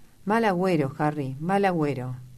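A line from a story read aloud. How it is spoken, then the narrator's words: Exclamation with sigh. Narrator (Spanish): Dorian exclamó con un suspiro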